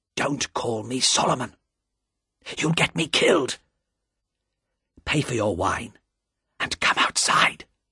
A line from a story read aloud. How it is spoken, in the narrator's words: said the man in a low, frightened voice